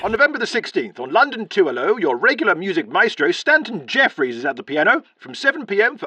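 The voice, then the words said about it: Old-fashioned radio announcer voice. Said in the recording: “our old-fashioned radio voice”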